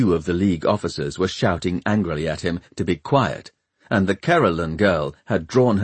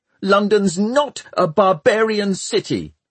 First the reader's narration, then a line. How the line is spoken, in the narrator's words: shouted Tom